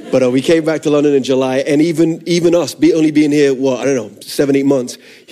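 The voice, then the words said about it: Unusual, hard-to-place accent. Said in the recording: “I'm a missionary kid, which is where the funky accent comes from”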